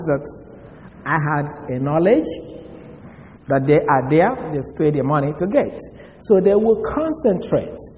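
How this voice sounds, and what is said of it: Strong non-native English accent. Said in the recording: “my accent ... how bad my accent may be ... a broken accent”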